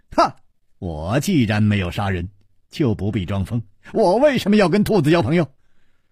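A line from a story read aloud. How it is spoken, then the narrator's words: Laughing. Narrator (Chinese): 楚留香……笑着说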